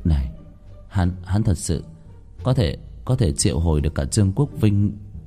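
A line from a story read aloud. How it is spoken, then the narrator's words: Old exorcist muttering. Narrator (Vietnamese): Vị nhân sĩ đuổi quỷ đạo hạnh trăm năm, phụ trách trấn thủ ở phía tây, lẩm bẩm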